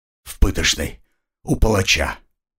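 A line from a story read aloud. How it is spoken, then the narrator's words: Whispered. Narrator (Russian): прошептал он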